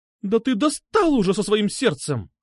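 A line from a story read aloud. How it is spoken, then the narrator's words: Sharp scolding shout. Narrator (Russian): прикрикнула она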